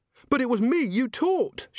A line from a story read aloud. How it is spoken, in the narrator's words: she said desperately